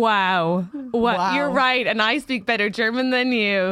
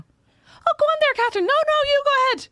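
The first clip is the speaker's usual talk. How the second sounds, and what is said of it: Put-on Irish accent. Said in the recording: “her Irish accent was better than mine”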